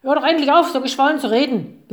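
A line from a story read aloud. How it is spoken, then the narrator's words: Fox barking, interrupting. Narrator (German): bellte der Fuchs dazwischen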